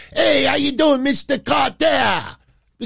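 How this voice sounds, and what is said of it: Impression of Ron Washington. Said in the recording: “I'm saying it in my Ron Washington voice from Welcome Back, Carter ... No, I don't sound French.”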